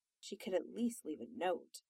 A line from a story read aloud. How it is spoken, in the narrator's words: Donna grumbled to herself